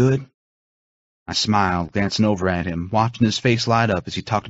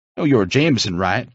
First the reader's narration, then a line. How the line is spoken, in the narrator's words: I laughed